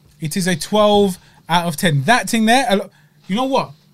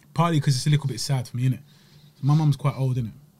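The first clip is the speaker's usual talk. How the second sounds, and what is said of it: Emotional, close to tears. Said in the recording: “hear the emotion in my voice ... Don't cry ... I'm slightly getting upset.”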